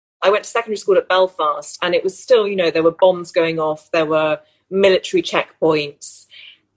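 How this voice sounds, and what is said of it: Very English accent. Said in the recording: “as you can hear, I have a very English accent”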